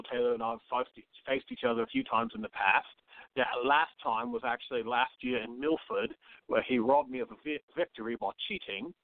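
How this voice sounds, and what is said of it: British accent. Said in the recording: “I can't get enough of your accent, and I love the fact that you're a lieutenant for the British Navy”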